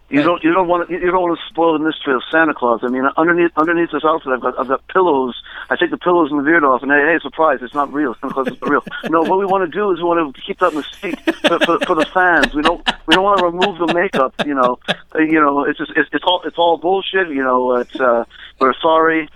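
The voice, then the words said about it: Poor imitation of another person's voice. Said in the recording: “It's the worst Gene Simmons impersonation ever.”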